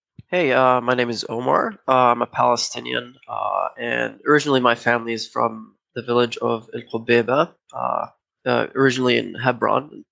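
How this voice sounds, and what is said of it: American East Coast accent. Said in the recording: “as you can tell from my accent, I'm an American from the East Coast”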